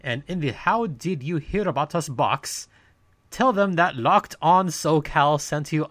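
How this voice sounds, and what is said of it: Put-on accent during ad read. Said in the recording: “I don't know where this accent's coming from”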